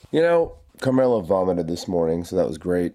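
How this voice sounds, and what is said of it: Sick, under-the-weather voice. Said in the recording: “Feeling better than you sound. Sounds like your voice is a little under the weather there.”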